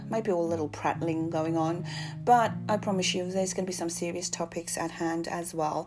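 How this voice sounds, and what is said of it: London accent. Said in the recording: “I'm in London, so as you can hear, the accent's a bit different.”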